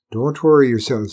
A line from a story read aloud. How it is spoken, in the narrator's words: said Arlen